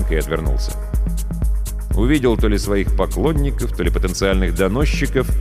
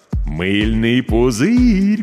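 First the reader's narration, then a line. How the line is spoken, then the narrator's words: Drawling. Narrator (Russian): протянул Миша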